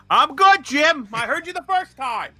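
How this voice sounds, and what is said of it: Loud, mock-angry yelling. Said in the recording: “He's upset. ... Why are you yelling? ... Don't yell.”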